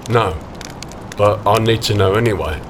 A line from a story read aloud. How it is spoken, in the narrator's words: he replied finally